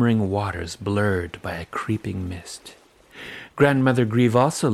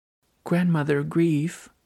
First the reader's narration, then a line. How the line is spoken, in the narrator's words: I pleaded